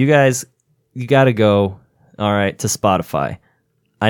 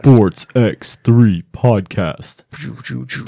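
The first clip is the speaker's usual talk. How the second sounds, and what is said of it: Booming announcer voice. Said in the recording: “I like my announcer voice.”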